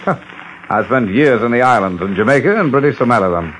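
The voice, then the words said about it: British accent. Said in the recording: “With a British accent?”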